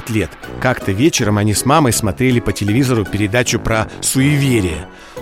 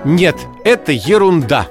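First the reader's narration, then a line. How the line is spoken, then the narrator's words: Stern. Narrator (Russian): строго сказала мама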